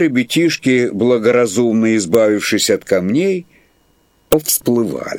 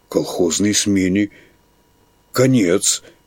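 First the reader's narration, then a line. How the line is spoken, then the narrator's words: Frightened. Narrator (Russian): испуганно заключил председатель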